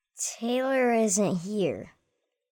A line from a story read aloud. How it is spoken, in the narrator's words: he said sadly